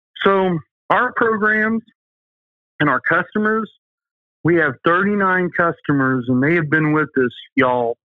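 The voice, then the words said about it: Southern American accent. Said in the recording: “There's my southern accent coming in”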